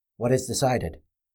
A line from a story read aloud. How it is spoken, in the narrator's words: Radifin answered in a soft voice